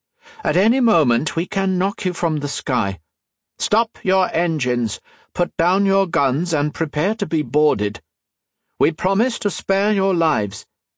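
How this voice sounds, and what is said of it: Woman's voice, slight Scandinavian accent. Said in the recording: “A woman's voice blared out of a speaking trumpet... the slight Scandinavian accent... that flat tone”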